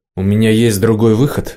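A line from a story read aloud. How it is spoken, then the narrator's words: Irritated. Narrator (Russian): раздраженно отозвался Семероль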